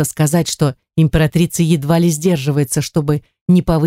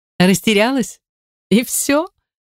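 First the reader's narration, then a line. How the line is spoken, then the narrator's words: Laughing. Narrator (Russian): рассмеялась императрица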